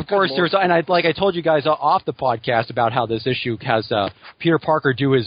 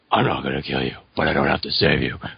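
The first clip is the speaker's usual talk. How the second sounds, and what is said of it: Batman character voice. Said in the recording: “his Batman imitation... You need to do more Batman... I demand you do more Batman.”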